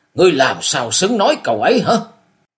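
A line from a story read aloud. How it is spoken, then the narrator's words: Angry. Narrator (Vietnamese): Thiên tà Hồng Cẩn giận dữ nói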